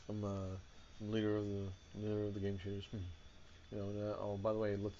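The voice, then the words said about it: Impression of Larry Tacked. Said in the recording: “did a Larry Tacked impression”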